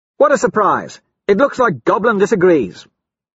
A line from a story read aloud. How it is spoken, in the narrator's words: Cassius snaps